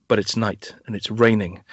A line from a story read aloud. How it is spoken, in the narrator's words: Stacey Keach really quietly says